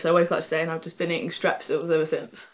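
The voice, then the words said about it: Nasal, congested voice. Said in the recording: “my voice is a bit nasally or gross”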